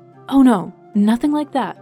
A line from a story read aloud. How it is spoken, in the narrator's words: Fauna exclaimed, slightly embarrassed